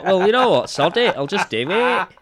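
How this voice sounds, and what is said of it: Strange put-on northern English accent. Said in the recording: “Northern Jesus ... my extremely strange accent there”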